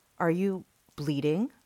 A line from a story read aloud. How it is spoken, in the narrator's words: Chris asked